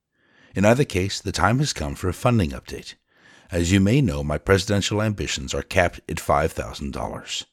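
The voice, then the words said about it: Rough, rocky voice. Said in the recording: “my voice is a bit rocky today”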